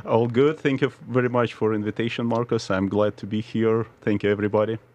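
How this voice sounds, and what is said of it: Slight Russian accent. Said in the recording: “there's a little bit of an accent ... Where's that accent from? ... truly from Russia”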